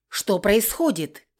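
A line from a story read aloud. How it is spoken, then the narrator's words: Shout. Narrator (Russian): крикнула она кому-то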